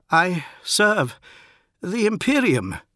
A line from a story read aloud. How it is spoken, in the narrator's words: he said, and his voice was shaking